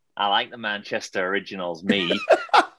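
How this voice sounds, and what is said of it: Put-on Manchester accent. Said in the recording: “They were teaching me the accent. ... He's gonna quickly do a Manc accent for us”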